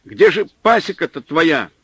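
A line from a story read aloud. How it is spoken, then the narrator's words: Irritated shout. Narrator (Russian): не скрывая раздражения, крикнул снабженец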